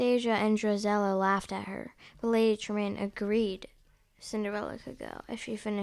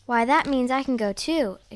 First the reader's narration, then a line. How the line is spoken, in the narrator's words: exclaimed Cinderella